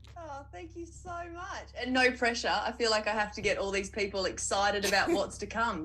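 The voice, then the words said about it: Australian accent. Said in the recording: “you will be able to tell from her accent that she's actually all the way over in Australia”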